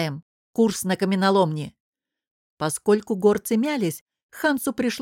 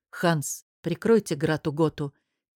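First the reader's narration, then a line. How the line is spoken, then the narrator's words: Quiet. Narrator (Russian): тихо сказал он командиру горцев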